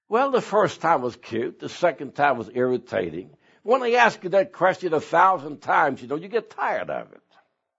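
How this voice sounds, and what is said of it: Foreign accent in English. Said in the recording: “Where do you come originally from? Because I can hear you have an accent.”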